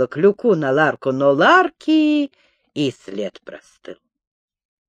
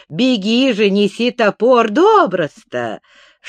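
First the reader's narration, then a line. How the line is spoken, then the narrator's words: Laughing loudly. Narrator (Russian): Шайсупов продолжал хохотать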